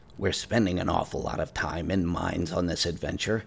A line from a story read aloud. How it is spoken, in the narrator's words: grumbled